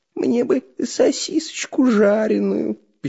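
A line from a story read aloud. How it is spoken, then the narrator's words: Thin squeaky voice. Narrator (Russian): пищал тоненьким голосом Дырка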